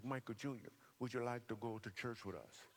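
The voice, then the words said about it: Imitated woman's accented voice. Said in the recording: “She had some kind of accent, too.”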